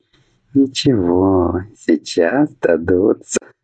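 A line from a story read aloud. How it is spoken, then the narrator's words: Chuckling. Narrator (Russian): Хохотнула она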